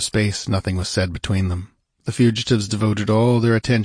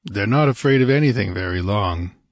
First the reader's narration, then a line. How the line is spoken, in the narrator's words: grunted Conan